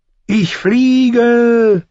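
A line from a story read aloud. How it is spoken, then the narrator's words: Joyful exclamation. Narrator (German): rief er freudig aus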